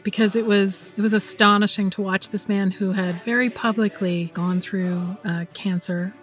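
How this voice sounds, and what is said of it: Choked-up, emotional voice. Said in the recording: “I'm getting choked up”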